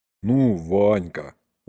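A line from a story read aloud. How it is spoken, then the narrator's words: Weary sigh. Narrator (Russian): устало вздохнул дядюшка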